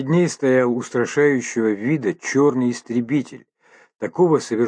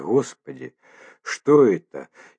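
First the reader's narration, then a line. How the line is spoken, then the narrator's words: Barely audible mumble. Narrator (Russian): едва шевеля губами пробормотала она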